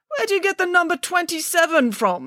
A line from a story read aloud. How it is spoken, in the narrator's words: spluttered Mr